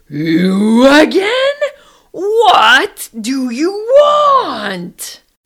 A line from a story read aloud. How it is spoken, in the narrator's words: the North Wind bellowed